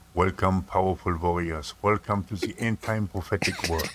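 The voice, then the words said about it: Thick Austrian or German accent. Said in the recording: “a very thick Austrian/German accent”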